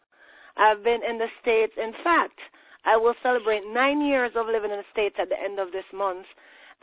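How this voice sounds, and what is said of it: Jamaican accent. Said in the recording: “if you're noticing an accent, it's because I hail from Jamaica”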